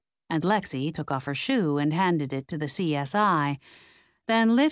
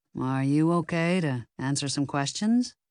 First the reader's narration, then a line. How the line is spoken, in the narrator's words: He asked in a soothing, low voice